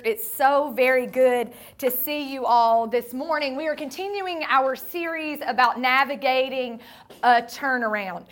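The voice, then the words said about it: Sandy Ridge regional accent. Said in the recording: “That Sandy Ridge accent came in right there.”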